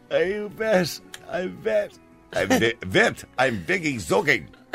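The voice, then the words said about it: Attempted German accent. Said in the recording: “I can't use the German accent”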